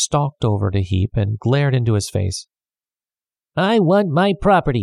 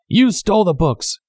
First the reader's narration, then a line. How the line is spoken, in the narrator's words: Heap shouted at Traddles